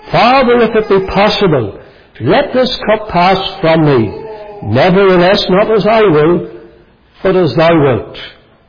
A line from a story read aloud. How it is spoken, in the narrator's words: he cried out